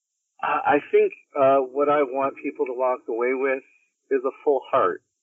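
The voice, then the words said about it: Choked up, emotional voice. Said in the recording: “now I'm all choked up. I'm not crying, you're crying.”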